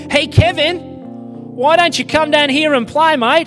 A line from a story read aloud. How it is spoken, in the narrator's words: he shouted